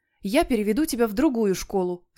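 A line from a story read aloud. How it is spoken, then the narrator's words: Plain. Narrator (Russian): сказала мама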